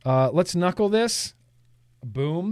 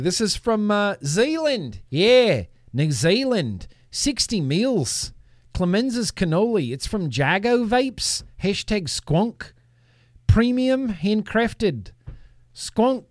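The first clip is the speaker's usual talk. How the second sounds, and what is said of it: Weak put-on New Zealand accent. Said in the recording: “this is not my best New Zealand accent. Sounds a little bit like South Africa.”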